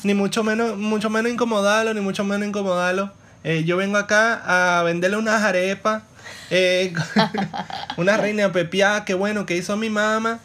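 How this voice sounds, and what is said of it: Poorly done Venezuelan street accent. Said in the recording (Spanish): “eres malísimo haciendo nuestro acento ... el acento malandro”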